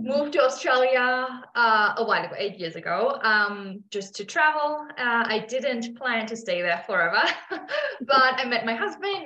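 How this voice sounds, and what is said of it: Foreign accent in English. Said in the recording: “I hear a beautiful accent.”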